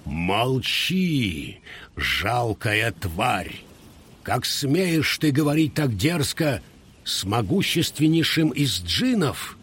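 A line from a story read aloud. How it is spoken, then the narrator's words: Thunderous exclamation. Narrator (Russian): джин воскликнул громовым голосом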